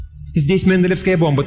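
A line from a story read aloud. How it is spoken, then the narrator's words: Hurried. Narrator (Russian): торопливо сообщила она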